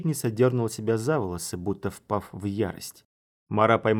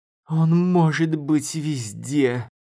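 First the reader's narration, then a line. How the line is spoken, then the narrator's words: Moaning in despair. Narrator (Russian): Простонала защитница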